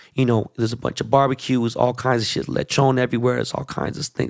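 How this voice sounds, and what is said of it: Hoarse, nearly lost voice. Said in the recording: “lost my voice. I've been hungover all weekend”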